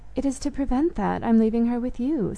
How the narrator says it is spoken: said Aunt Cynthia

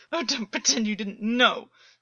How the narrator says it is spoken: August choked, shuddering

